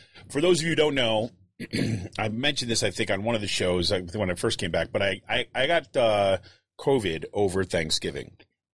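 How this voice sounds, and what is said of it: Voice still not up to par. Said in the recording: “As you can hear, my voice ... My voice is still not quite up to par.”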